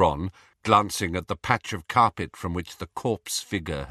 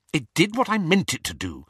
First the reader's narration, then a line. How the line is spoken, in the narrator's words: said Hermione rather crossly